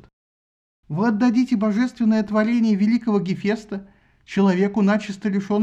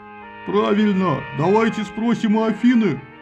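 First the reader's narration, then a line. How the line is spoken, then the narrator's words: Deep bass, bearded warrior. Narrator (Russian): пробасил какой-то бородатый воин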